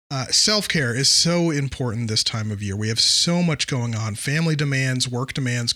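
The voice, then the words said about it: Slightly worn voice from a cold. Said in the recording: “I apologize if the vocal is a little off. I am in the middle of a cold, getting over a cold... my voice is starting to wear down a little bit”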